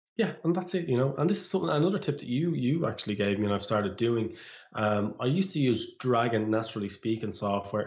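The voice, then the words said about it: Irish accent. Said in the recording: “I could never catch the Irish accent at all.”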